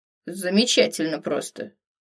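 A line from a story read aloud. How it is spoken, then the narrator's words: Grumpy mutter. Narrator (Russian): Буркнула ворчливо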